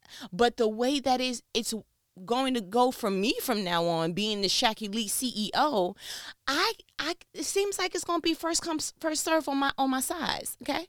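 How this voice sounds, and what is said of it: Stuttering, nervous speech. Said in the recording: “I'm stuttering, getting a little nervous”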